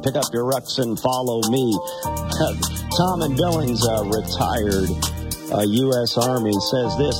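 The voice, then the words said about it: Scratchy, raspy voice. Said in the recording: “my voice wasn't so scratchy and raspy”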